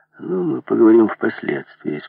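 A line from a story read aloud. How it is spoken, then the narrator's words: Calm. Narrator (Russian): спокойно сказал Бетти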